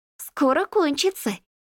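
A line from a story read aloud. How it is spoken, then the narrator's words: Giggling. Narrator (Russian): хихикает Данка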